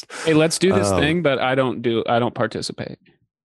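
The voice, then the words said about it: Imitates another person's voice. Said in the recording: “I was doing an impression of you.”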